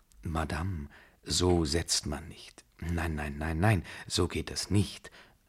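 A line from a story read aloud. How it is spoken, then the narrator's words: Honey-sweet whisper. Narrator (German): flüsterte Desgrieux der Babuschka mit honigsüßer Stimme ins Ohr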